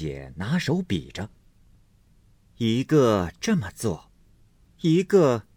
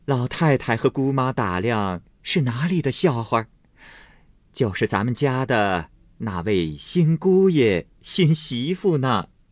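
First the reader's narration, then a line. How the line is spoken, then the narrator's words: Laughing before speaking. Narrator (Chinese): 先自笑了，因说道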